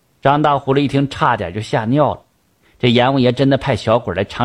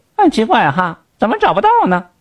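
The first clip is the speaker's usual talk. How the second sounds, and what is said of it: Sharp, shrill character voice. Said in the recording (Chinese): “尖尖的声音说”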